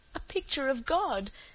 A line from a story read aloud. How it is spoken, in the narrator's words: said Cecily with a sob in her voice